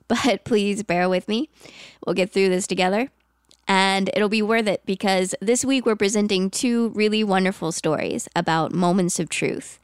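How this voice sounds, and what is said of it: Congested voice from a cold. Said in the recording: “I have a cold. ... it's not my usual dulcet tones”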